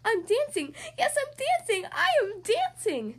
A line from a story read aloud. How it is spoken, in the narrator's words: Gerald cried